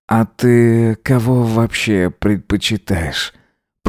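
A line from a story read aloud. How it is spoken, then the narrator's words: Purring in ear. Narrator (Russian): промурлыкал Эзра ему на ухо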